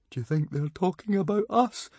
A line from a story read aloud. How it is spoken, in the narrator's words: whimpered Fishlegs